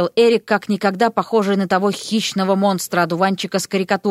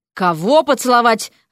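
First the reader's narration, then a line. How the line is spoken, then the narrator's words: Barking. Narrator (Russian): рявкнул Эрик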